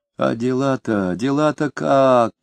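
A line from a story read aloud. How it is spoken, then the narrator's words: Whiny question. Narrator (Russian): ноющим тоном спросил Фроленков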